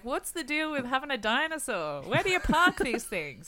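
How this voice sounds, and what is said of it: Jerry Seinfeld impression. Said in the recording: “That's a great impression of Seinfeld, though. He does do the most like random observational jokes.”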